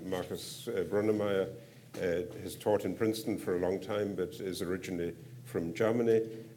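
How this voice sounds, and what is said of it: European accent in English. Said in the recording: “you can probably tell from the accent that I'm a citizen of a country that's still a member of the European Union”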